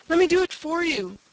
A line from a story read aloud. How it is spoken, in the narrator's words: Red begged him